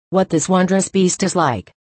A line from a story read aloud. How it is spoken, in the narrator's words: he said